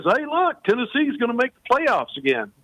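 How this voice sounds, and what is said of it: Put-on Southern Arkansas-style accent. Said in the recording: “The spot on impersonation. ... Is that how they say it, Tony? ... That's how they say it in Arkansas. And Tennessee's right next to Arkansas. It's pretty much the same dialect.”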